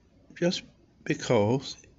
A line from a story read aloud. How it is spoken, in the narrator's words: stammered